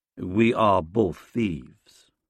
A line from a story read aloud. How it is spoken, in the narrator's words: he says